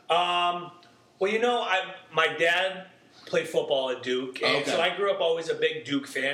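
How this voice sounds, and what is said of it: Boston accent. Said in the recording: “I'm getting the accent Boston.”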